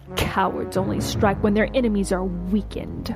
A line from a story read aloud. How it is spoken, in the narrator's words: she spat